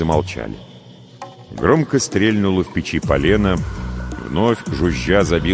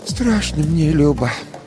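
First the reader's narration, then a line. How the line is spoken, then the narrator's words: Sighing old woman. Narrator (Russian): вздохнув, сказала баба Маша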